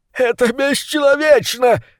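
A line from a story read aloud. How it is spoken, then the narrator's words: Shrieking. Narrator (Russian): завизжал крысолов номер два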